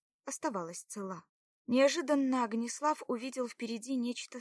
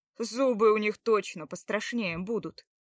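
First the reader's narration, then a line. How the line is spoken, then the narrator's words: Wry snort. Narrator (Russian): хмыкнул Огнеслав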